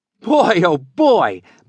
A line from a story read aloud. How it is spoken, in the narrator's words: Billy Fairfield laughed